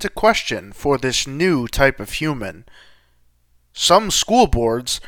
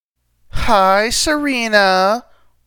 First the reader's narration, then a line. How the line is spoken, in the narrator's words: one girl taunted